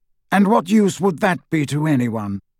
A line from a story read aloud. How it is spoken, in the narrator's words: said Dumbledore coldly